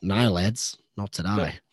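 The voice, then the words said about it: Weak Kiwi accent imitating Wayne Pivac. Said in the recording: “it just didn't sound very Kiwi there ... I'm still working on my accents”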